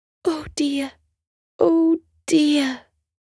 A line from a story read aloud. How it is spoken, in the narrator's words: Jolly sighed